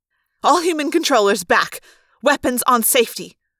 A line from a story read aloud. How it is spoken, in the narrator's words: the woman snapped